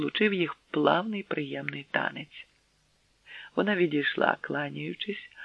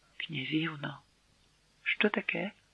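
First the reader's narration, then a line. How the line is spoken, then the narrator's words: Heartfelt whisper. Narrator (Ukrainian): з глибини серця, що металося в путах своїх, він прошепотів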